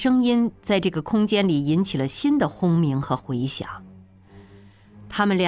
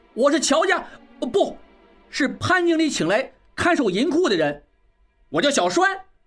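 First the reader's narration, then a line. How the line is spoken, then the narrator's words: Loud. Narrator (Chinese): 小栓仍然大声道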